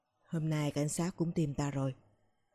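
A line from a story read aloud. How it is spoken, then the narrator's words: Lowered voice. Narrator (Vietnamese): hạ giọng nói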